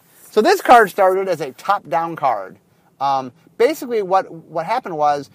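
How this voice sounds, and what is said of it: Usual voice. Nothing is said of it.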